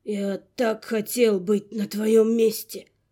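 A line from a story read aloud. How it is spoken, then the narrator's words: Barely audible, guilty. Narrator (Russian): признавая свою вину, едва слышно выдавил он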